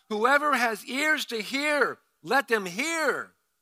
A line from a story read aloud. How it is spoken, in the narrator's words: he called out